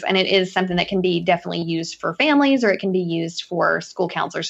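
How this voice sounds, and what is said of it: Relaxing Southern drawl. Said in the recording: “I loved listening to your Southern drawl. I found it very relaxing.”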